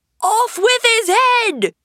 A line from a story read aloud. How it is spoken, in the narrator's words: The queen began stamping about and shouting